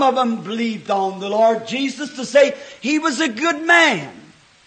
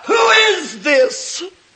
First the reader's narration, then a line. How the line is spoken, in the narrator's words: The spirit of the unbeliever still cries out